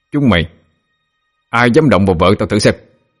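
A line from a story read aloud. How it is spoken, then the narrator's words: Furious threatening shout. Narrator (Vietnamese): Cậu châu mày giận dữ quát lên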